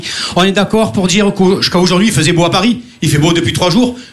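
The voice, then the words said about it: Marseille French accent. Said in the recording (French): “je viens de Marseille ... Une vendeuse a entendu mon accent. Elle a fait « Ah, Marseillais”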